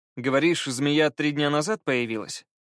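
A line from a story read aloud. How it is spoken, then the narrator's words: Plain. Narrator (Russian): спросил Скай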